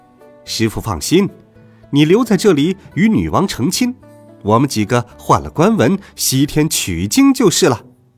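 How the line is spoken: Laughing. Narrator (Chinese): 孙悟空笑道

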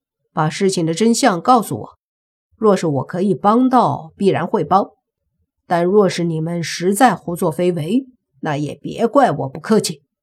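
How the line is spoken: Calm indifferent. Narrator (Chinese): 莫凡淡淡的说

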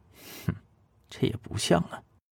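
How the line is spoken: Inner muttering. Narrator (Chinese): 一星 心里头嘟囔着说道

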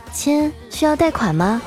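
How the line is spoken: Sweet female voice. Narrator (Chinese): 声音甜甜的女生问我

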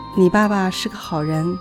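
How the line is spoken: Mother sighing. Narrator (Chinese): 母亲叹道

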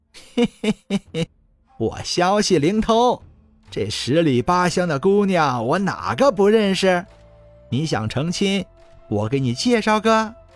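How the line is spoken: Mysterious, smiling. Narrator (Chinese): 沈嫂神秘兮兮的笑了笑，说道

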